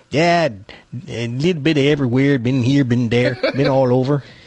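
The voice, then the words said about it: Put-on Scandinavian-Minnesota accent. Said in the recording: “He's got a very weird accent. It's sort of Norwegian, Canadian, Scandinavian, Minnesota. He's got a weird way of talking.”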